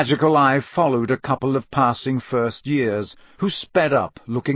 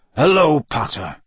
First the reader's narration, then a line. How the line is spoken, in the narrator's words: growled Moody